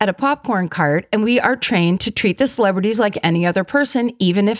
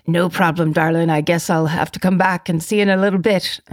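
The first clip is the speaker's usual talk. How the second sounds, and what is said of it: Poor put-on Irish accent. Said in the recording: “That's a terrible Irish accent.”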